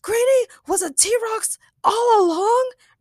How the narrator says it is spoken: Ray shouted, beside himself with excitement

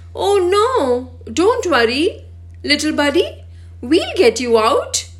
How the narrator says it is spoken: Bobby exclaimed

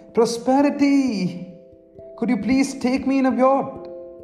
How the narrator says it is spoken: Love shouted

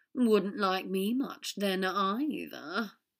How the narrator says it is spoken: Draco said grimly

